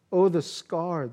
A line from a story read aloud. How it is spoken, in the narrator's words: mom said